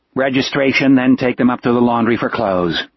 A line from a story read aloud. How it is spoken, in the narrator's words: Gardner said in a flat voice